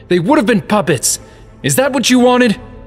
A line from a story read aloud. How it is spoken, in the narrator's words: Sheik yelled